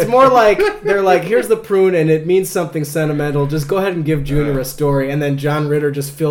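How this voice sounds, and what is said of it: Usual voice. Nothing is said of it.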